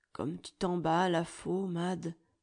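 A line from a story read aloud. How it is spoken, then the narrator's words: Gently. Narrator (French): reprend doucement Philippe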